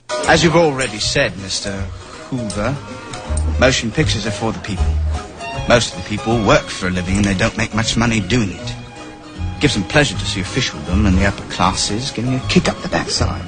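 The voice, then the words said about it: Put-on accent. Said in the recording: “maybe the accent is a clue”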